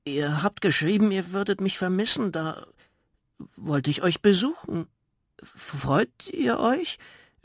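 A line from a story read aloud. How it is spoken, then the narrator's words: Stammering. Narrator (German): stammelte der kleine Riese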